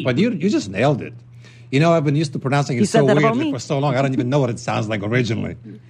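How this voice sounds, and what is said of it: Polish accent. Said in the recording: “you got the accent... the cool accent... It's from Poland.”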